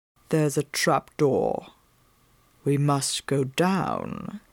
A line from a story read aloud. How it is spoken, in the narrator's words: he said softly in my ear